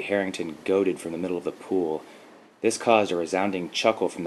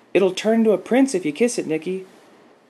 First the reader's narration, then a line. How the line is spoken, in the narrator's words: Lacey Peters called out